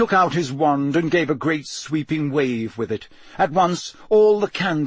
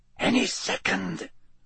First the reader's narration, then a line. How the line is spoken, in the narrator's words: whispered, 2 seats away